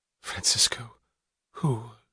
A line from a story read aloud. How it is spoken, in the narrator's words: she whispered, knowing the answer